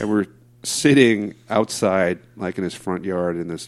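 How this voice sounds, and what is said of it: Usual voice. Nothing is said of it.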